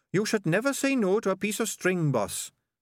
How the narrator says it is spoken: said Sardines earnestly

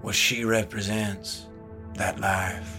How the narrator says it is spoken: he sighed

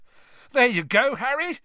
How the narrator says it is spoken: Ron shouted over the noise

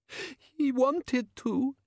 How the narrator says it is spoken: she sobbed

